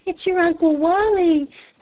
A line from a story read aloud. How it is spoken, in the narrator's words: panted her mother